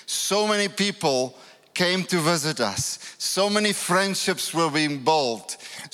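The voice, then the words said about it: African accent. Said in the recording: “you will have to get used to my accent and all the Africans”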